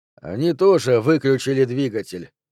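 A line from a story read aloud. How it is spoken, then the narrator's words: Dry comment. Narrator (Russian): сухо прокомментировал Танкред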